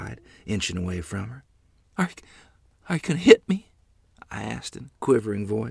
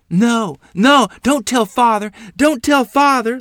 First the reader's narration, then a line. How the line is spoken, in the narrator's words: Lottie cried